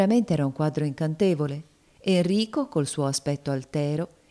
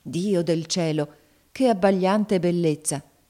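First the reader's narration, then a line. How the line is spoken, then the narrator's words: Exclamation. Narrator (Italian): esclamò Alfredo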